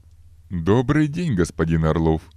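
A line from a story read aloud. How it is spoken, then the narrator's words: Cheerful, smiling greeting. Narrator (Russian): Радостно улыбнулся невзрачный тип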